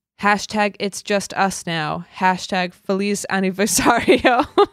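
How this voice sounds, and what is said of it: Spanish in white girl accent. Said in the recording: “You have such a white girl accent.”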